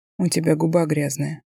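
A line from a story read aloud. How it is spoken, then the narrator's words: Hoarse whisper. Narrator (Russian): хрипло шепчет Антон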